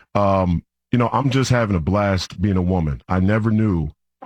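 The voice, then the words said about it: Sarcastic mock-sincere delivery. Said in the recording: “being sarcastic”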